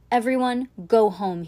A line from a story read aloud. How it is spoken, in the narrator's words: he shouted onto the snowball as if it were a megaphone